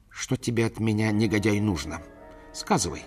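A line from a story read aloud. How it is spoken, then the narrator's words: Agitated question. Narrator (Russian): спросил он взволнованным голосом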